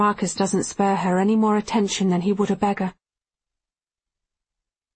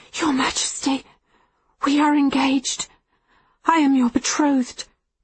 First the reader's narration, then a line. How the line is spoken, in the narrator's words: she whispers